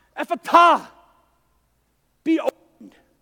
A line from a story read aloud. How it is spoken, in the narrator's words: he heaved a sigh and he shouted out